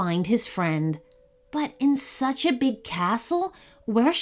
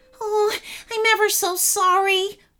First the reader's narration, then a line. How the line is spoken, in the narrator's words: whimpered Clunky